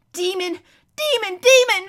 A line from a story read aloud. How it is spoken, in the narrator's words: shrieked the prince